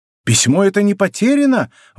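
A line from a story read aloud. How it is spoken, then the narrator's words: Exclamation. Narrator (Russian): воскликнул он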